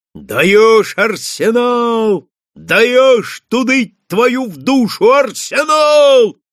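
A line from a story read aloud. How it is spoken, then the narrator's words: Wild unnatural yell. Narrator (Russian): Заорал он не своим голосом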